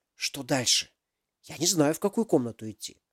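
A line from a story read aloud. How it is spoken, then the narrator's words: Whisper. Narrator (Russian): прошептала она Ярославу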